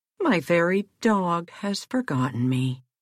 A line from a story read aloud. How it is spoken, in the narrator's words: sighed Rip